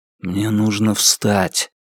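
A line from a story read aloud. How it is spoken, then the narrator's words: Whispered. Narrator (Russian): прошептал он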